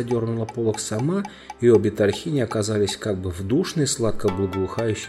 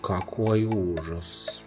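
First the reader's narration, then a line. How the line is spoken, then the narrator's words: Drawn-out drawl. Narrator (Russian): протянула Лазарелина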